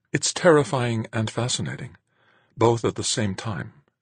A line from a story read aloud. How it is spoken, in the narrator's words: said in a near whisper